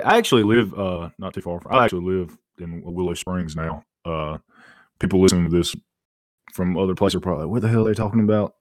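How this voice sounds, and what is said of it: North Carolina Southern accent. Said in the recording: “He just didn't get this beautiful accent... I was wondering if you were closer to Charlotte based on that accent... That's why I don't talk like that.”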